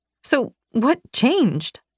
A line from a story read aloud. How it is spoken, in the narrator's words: I choked out